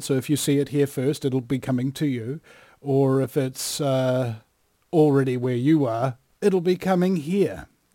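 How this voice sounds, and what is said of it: New Zealand accent. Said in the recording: “your Kiwi accent ... people started to crowd around just to hear ... your accent”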